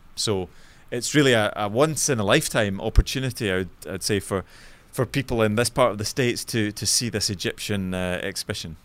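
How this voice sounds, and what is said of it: Scottish accent, not American. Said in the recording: “from your accent, not American ... my native city, which is Glasgow in Scotland, so you might be able to pick up my”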